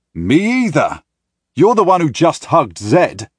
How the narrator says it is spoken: I yell at her

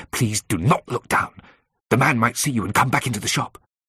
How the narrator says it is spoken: said urgently

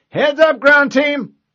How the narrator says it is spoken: she yelled

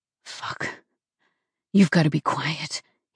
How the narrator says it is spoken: groaned in my ear

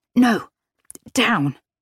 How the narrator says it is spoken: hissing

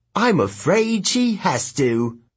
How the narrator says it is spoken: the right face said cheerfully

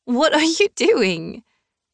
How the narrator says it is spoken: I squealed out a laugh

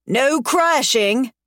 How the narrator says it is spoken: Ryder shouts

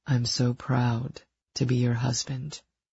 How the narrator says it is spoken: he said solemnly

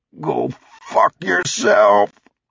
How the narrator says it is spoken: he groaned

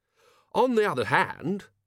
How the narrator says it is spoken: he said brightly

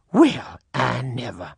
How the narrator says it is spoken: The other one snorted

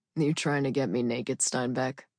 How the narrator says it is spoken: he asked, his voice a little raspy

